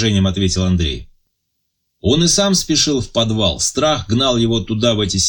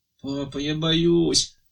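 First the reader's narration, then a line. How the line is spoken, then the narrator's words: Whimpering young girl. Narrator (Russian): захныкала младшая дочка Вера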